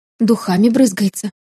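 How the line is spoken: Mutter. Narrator (Russian): пробормотала Люся

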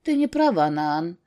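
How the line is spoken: Dry reply. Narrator (Russian): сухо ответил Гора

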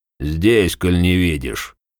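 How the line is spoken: Grumbling. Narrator (Russian): пробурчал Клаас

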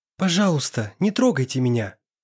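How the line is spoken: Frightened girl's whisper. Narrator (Russian): Испуганно прошептала девушка

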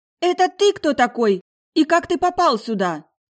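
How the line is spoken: Indignant shout. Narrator (Russian): Прокричала возмущенно неожиданная гостья

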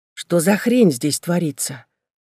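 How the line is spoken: Quiet speech. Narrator (Russian): Я говорила это тихо

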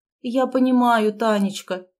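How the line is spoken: Sighing. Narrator (Russian): вздохнула она

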